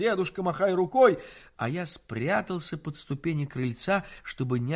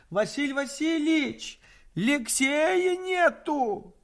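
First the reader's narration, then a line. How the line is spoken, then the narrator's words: Shouted. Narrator (Russian): Нянька Евгения закричала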